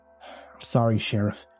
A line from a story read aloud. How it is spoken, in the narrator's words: he muttered